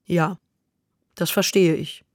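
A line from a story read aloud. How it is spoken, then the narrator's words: Calm, steadily stronger voice. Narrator (German): sagte sie da ganz ruhig, und nun klang ihre Stimme kräftiger, als fühlte sie sich getröstet und gestärkt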